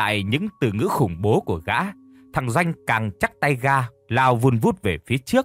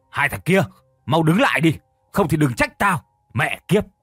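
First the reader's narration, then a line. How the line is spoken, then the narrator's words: Shouting. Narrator (Vietnamese): Gã ... hét lên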